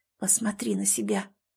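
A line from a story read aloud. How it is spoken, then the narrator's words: Whispered under breath. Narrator (Russian): прошептала она себе под нос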